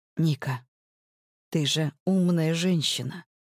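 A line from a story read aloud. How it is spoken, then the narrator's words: Quiet, cautious. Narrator (Russian): Тихо начинает он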